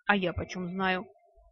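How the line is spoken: Snapping. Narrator (Russian): огрызнулась Лидиина

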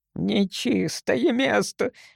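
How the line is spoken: Old man moaning. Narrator (Russian): простонал старик

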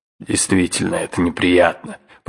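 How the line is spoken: Uncle grumbling. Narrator (Russian): проворчал дядя

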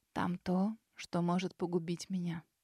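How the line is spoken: Muffled, hollow reply. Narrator (Russian): глухо ответила Сесилия

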